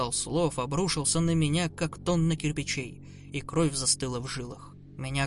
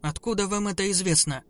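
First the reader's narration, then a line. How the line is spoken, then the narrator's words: Trembling demanding voice. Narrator (Russian): потребовал я ответа дрожащим голосом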